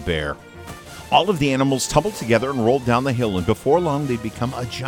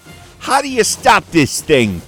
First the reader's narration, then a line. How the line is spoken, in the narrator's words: Timothy shouted as they zoomed along